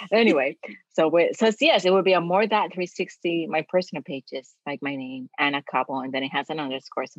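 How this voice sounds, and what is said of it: Latina accent. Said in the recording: “you sound exotic ... my Latina accent”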